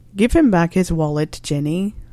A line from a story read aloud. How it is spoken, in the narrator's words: sighed Arthur